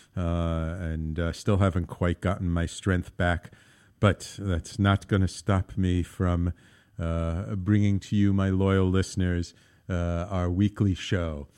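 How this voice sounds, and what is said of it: Weak voice recovering from cold. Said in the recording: “If my voice isn't as strong as it usually is, I'm just getting over a really bad cold.”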